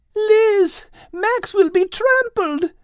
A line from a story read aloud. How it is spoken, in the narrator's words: Kate screamed